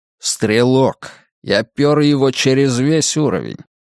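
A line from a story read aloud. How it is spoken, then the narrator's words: Tired. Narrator (Russian): устало говорит Анатоль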